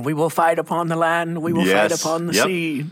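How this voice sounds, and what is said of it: Imitates another person's voice. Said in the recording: “like that impersonation ... It was really good ... No gravel in that impersonation.”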